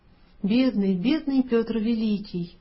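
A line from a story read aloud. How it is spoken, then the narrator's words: Tender whisper. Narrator (Russian): дядя ласково шептал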